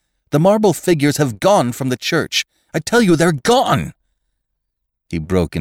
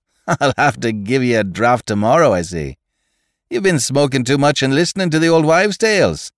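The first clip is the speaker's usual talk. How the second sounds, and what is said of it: Irish accent character voice. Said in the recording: “the raw-boned Irish doctor ... he cried in his own unmistakable accents.”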